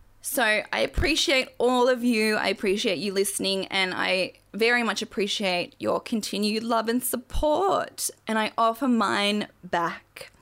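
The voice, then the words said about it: Strained, fading voice. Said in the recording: “I'm losing my voice now.”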